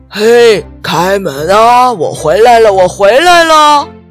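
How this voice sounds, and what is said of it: Booming imitated grandpa voice. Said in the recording (Chinese): “装出爷爷洪亮的声音”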